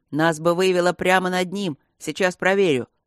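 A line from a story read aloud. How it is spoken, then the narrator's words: Snorting. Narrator (Russian): Он фыркнул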